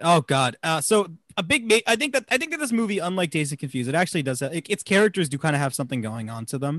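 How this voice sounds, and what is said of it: Usual voice. Nothing is said of it.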